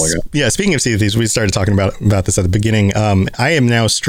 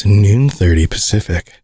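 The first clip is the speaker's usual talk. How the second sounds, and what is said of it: Sexy, seductive voice. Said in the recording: “I can say it in my sexy voice”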